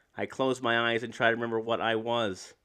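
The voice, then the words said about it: Robotic voice reading poetry. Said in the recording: “My robot voice got shitty at the end”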